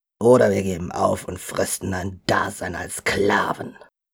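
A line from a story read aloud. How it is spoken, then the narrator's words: Discontented grumble. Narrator (German): brummte Berko unzufrieden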